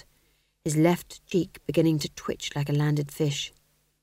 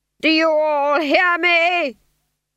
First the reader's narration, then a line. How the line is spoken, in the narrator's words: He screamed